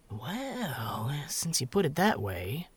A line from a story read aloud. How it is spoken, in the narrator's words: drawled Judson with a grin